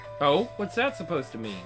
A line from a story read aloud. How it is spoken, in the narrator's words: She chuckled